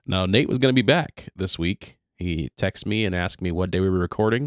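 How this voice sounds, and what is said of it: Lower, sick-sounding voice. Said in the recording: “my voice is a little bit lower than normal. I've been sick for a handful of days now... my very attractive radio voice”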